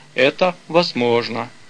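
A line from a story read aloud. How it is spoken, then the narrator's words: King answering with sigh. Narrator (Russian): царь, вздохнув, ответил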